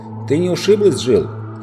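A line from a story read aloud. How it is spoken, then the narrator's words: Shouting. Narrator (Russian): крикнул Юстас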